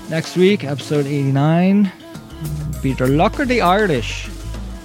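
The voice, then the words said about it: Poor put-on Irish accent. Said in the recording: “My Irish accent is not good. It's kind of funny.”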